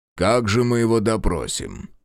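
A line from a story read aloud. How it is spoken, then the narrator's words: Snorting. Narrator (Russian): хмыкнул генерал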